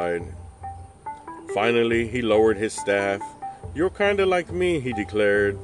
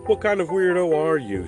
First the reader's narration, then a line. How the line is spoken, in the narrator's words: She laughed